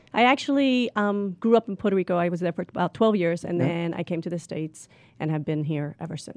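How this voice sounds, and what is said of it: Mixed New Jersey and Puerto Rican accent. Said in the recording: “a combination of a New Jersey accent ... And a Puerto Rican accent”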